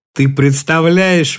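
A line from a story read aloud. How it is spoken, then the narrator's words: Speaking through laughter. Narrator (Russian): выговорила она сквозь смех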